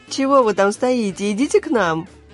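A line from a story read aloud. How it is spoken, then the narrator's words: Laughing girls. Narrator (Russian): Смеясь … девушки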